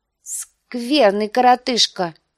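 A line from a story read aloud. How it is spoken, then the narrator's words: Giggling. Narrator (Russian): сказал лорд Роберт, хихикая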